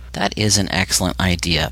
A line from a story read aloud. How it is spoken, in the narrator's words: the guard said